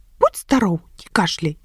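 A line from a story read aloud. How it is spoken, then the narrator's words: Cheerful voice. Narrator (Belarusian): бадзёрым голасам пажадаў нябачны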